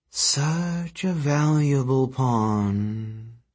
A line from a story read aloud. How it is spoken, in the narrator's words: she said soothingly